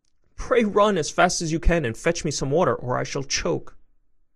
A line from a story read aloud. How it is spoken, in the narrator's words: in a great fright and cried out to Chanticleer